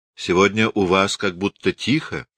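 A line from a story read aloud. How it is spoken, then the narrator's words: Plain. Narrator (Russian): спросил Равик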